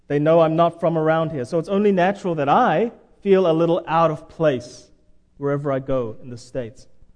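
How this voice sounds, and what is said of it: Foreign accent. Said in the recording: “People notice my accent.”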